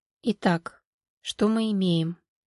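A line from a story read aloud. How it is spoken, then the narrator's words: Quiet. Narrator (Russian): негромко проговорила Валерия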